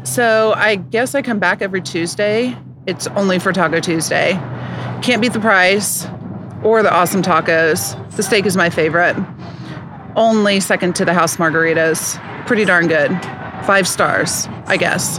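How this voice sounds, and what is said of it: Unhappy, unenthusiastic reading voice. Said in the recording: “She does not sound happy at all.”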